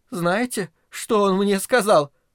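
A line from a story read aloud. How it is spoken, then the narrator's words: Sobbing. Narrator (Russian): прорыдала Грета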